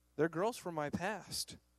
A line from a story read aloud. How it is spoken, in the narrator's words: he answered sadly